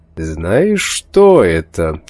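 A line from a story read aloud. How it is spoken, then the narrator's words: Theatrically sinister voice. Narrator (Russian): спросил он картинно зловещим голосом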